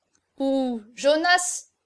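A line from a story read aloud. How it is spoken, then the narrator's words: Stammered. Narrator (French): balbutia Passepoil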